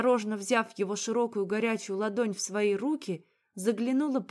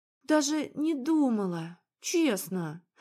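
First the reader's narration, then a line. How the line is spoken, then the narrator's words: Sighing. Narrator (Russian): Вздохнула я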